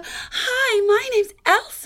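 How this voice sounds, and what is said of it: Elsa princess character voice. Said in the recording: “I go fully into the princess accent and I do the whole thing”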